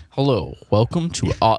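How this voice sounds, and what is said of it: Lowered deep announcer voice. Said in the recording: “he lowers his voice”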